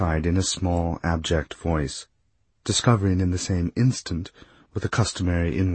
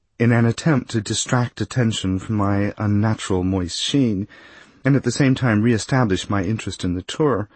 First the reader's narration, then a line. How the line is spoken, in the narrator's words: I added more brightly